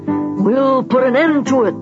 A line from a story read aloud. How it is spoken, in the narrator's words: their enemies bellowed